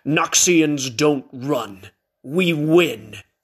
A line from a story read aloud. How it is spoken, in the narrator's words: growled